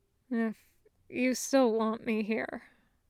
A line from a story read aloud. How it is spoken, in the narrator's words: Sokka murmurs